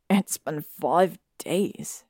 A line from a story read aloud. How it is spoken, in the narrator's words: Harry said miserably